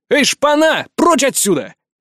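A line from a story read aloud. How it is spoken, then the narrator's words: Shout. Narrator (Russian): прокричал я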